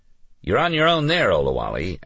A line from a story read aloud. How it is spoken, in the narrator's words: Alex said, laughing